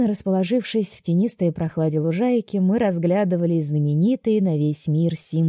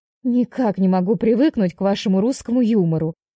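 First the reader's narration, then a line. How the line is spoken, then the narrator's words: Amused snort. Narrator (Russian): Хмыкнула Вия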